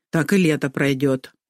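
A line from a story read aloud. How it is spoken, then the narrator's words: Grumbling. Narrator (Russian): проворчала Магда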